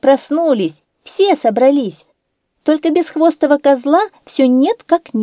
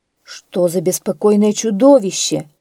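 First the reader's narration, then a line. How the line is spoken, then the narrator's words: Grumbling. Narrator (Russian): проворчал старшина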